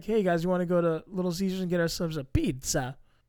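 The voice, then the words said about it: Imitation of Ryan Seacrest. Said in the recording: “Ryan Seacrest ... you can't throw that accent onto something if you don't have an accent yourself”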